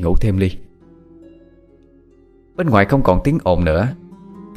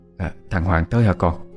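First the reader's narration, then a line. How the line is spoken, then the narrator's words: Suddenly lowered voice. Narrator (Vietnamese): bà Mai chợt hạ giọng xuống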